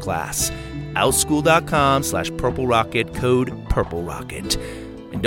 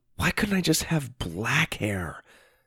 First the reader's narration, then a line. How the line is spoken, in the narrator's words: Lydia whispered